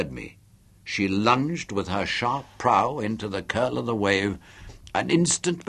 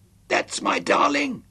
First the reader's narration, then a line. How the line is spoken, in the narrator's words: I shouted to her